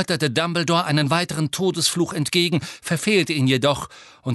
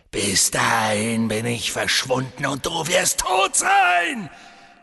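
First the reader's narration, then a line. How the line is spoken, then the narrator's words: Hissing. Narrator (German): fauchte Voldemort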